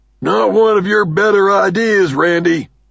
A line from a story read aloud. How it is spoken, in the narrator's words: Doug shouts, almost contemptuously